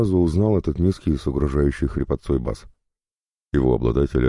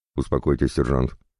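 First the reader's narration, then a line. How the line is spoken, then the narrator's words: Sharp rebuke. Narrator (Russian): резко одернул его полковник Кнутов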